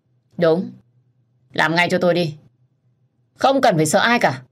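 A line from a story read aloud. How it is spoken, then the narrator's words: Stern. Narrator (Vietnamese): Tuấn anh nghiêm giọng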